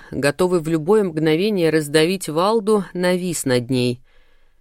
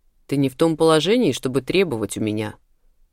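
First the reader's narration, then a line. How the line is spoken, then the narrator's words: Growling. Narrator (Russian): зарычал Ахлф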